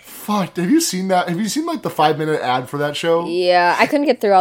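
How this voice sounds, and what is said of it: Usual voice. Nothing is said of it.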